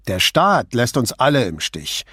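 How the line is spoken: Angry retort. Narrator (German): gab Raffi wütend zurück

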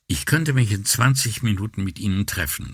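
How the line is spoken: Plain. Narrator (German): sagte

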